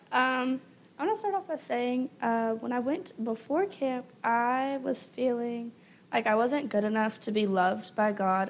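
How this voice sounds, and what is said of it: Hoarse, nearly lost voice. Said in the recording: “my voice is not lost because of Nation Games. It is because I was literally crying so bad this week.”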